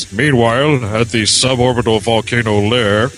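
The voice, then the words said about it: Ted Knight narrator voice impression. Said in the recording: “I should be doing that in my Ted Knight voice.”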